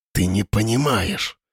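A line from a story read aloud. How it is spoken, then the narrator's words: Whisper. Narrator (Russian): Наконец прошептал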